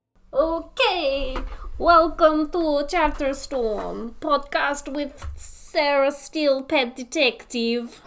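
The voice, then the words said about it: Unidentifiable put-on character accent. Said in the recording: “that was a horrible and unidentifiable ... accent ... because it's Sarah Steele's voice”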